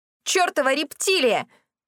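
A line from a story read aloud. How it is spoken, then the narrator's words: Unrestrained yell. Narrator (Russian): без стеснения заорала я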